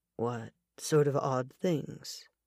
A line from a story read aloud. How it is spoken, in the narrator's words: Mac asked quietly